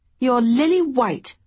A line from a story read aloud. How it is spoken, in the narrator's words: Honor exclaimed